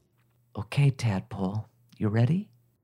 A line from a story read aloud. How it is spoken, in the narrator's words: Crandon whispered